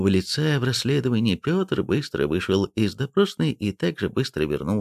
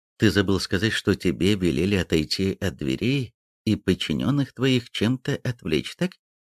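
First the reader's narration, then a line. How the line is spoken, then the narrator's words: Gentle question. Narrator (Russian): мягко спросил Шкуматов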